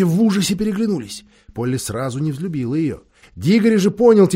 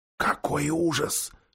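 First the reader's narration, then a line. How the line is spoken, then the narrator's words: Whisper. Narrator (Russian): шепнул Дигори растерянной Полли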